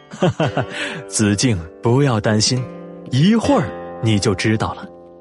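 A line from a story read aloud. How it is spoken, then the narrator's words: Laughing. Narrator (Chinese): 诸葛亮笑着说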